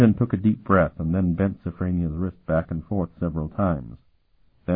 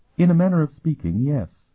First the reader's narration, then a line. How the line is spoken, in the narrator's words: she replied calmly